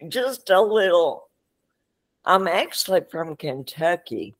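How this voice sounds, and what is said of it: Slight Southern US accent. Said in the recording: “a little bit of Southern accent”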